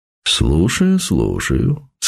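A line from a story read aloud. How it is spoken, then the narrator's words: Pleasant velvety voice. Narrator (Russian): сказал он приятным бархатистым голосом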